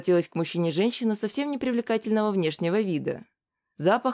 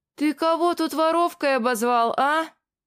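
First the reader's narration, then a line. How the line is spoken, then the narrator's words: Shout. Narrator (Russian): закричала та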